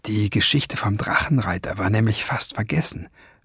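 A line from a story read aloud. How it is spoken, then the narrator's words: Murmured. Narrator (German): raunte sie dem Jungen zu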